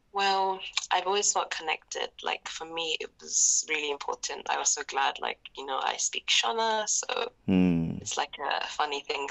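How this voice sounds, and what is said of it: British accent. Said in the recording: “oh, you have a British accent. And I was like, yes”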